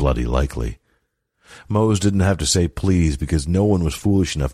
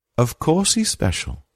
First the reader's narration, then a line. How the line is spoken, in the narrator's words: she said sweetly